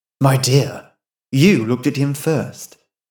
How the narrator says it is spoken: murmured Mrs

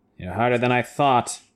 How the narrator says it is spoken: Taim muttered

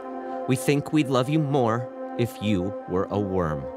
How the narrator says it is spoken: Christina said

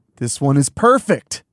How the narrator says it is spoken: Todd exclaimed

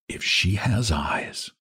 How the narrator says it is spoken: Val murmured to himself

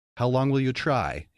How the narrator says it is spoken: he shouted at the night

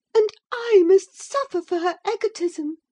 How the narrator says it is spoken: she sobbed

